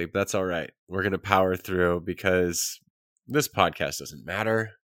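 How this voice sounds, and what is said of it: Nasal, congested voice. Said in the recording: “If I sound odd, it's because I'm getting over a sinus infection ... you sound kind of nasally ... I sound a little nasally”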